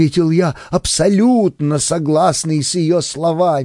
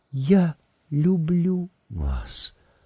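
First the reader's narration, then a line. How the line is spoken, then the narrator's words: Barely audible. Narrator (Russian): произнесла она чуть слышно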